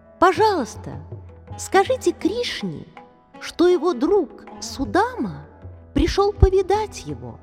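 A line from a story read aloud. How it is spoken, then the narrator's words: Timid. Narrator (Russian): Робко подойдя к ним, Судама промолвил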